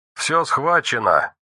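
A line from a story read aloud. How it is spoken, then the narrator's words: Colonel's husky distant voice. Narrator (Russian): донесся хрипловатый голос полковника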